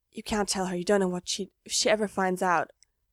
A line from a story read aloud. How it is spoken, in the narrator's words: curls in on himself and whispers